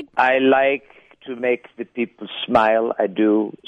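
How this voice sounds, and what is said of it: Arnold Schwarzenegger impression. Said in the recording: “that was like an Ozinger accent. That was like a Chano Ozinger voice there.”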